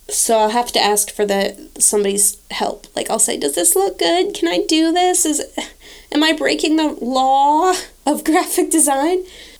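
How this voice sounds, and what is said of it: Congested, stuffy voice with sniffles. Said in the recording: “I have a terrible cold. You might be able to hear it in my voice... because of the sniffles”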